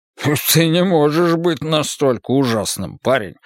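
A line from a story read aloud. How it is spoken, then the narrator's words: Snorting. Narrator (Russian): фыркнул Колм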